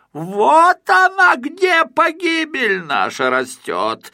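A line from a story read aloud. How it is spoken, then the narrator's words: Furious spluttering yell. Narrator (Russian): заорал, брызгая слюной, Спруц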